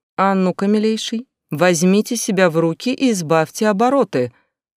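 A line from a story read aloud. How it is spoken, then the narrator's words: Breathless, forced calm rebuke. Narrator (Russian): Запыхавшись от бега, максимально спокойно попыталась осадить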